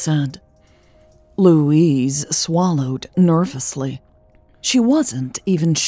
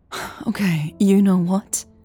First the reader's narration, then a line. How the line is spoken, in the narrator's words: Elle sighed